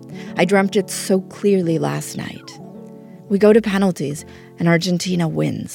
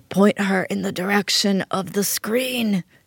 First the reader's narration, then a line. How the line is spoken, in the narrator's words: she croaked like a dying Don Corleone